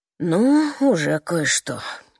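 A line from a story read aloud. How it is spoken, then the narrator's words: Sad reply. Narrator (Russian): грустно отвечает он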